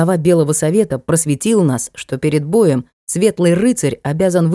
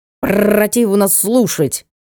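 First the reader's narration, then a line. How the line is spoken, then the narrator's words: Spiteful raven, beak snap. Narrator (Russian): сказал ворон, злобно щелкнув клювом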